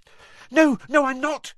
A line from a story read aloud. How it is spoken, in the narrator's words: she said hastily